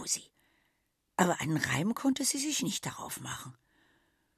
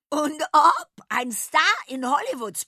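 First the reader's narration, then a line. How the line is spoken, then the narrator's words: Shrill insistent voice. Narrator (German): bekräftigte mit schriller Stimme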